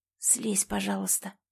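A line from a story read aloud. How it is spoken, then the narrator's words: Quiet whisper. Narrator (Russian): прошептала тихо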